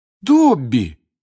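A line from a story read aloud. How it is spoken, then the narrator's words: Exclaimed. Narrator (Russian): воскликнул Гарри, придя в себя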